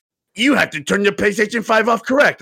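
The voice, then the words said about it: Yelling voice for an angry console. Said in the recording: “Why are you yelling at me? I don't know why you're yelling”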